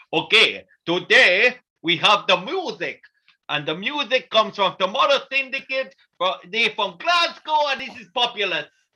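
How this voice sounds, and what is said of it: Unplaceable put-on accent. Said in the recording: “it bore no resemblance to any accent from around the world ... it's a ... accent”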